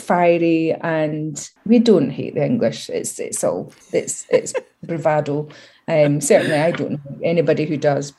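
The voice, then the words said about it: Scottish accent. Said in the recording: “my Scottish accent gets way stronger”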